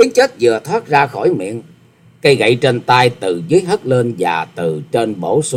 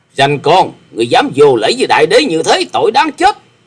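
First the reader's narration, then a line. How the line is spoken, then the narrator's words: Angry snorting shout. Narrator (Vietnamese): hừ lên một tiếng giận dữ quát lên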